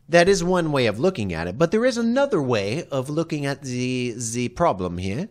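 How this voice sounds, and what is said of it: Put-on German accent. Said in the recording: “do you like me German accent?”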